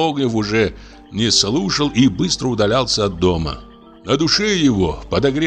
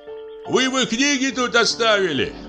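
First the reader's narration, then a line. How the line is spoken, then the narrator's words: Calling out after. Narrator (Russian): крикнул ему вслед Кузнецов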